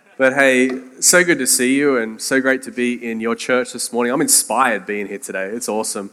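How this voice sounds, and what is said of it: Australian accent. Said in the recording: “my accent, yes, I am from Australia”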